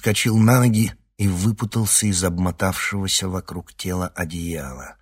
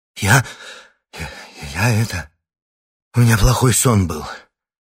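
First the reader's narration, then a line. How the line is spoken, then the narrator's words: Breathless exhale. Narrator (Russian): выдохнул Никита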